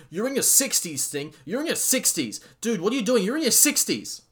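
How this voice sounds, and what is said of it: Screaming. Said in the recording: “I'm screaming,”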